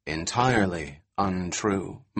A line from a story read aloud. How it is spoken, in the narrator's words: said, nodding gravely